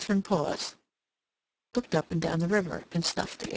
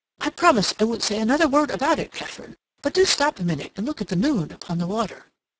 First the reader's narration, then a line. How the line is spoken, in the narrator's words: Rodney exclaimed